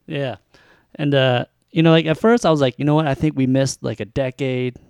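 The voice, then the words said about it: Philadelphia accent. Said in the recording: “That's our stupid Philly accent.”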